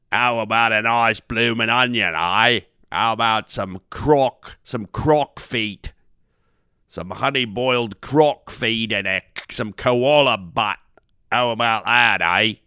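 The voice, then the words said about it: Exaggerated put-on Australian accent. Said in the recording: “Now that's Australian, eh? I mean that they overdo the accent so much.”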